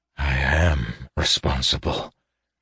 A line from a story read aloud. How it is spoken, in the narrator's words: whispered Caden